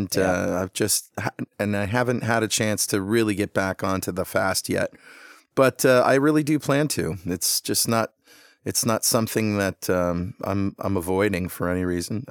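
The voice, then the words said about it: Slightly hoarse voice. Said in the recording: “my voice is a little hoarse because the band played last night ... Sang my brains out and I'm a little hoarse”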